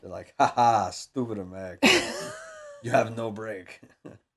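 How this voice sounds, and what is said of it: Mock Japanese accent, Mr. Miyagi-style. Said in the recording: “That's Japanese, by the way. ... That impression. ... South Park did them ... did Mr. Miyagi, basically.”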